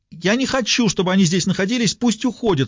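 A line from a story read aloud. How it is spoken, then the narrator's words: Screaming again. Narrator (Russian): снова завопила Крисси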